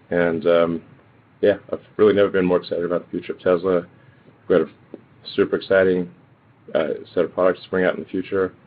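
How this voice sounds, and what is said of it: Tired-sounding voice. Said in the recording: “Sorry if I sound a little tired.”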